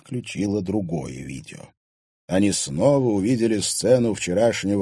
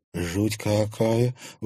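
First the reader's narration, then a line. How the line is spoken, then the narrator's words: Breathless. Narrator (Russian): выдохнула Луиза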